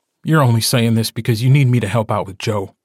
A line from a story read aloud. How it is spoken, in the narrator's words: he snaps at her